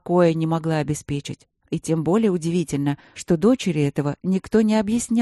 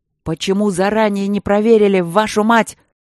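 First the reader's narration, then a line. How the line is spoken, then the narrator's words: Furious red-faced yell. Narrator (Russian): заорал Игорь Иванович багровея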